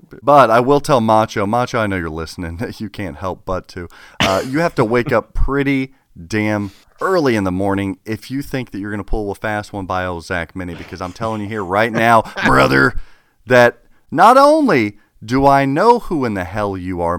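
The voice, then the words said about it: Wrestler promo impression voice. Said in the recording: “Are you gonna do a Canadian macho pinball? ... my Macho Man impression”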